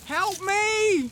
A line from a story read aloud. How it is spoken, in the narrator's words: he yelled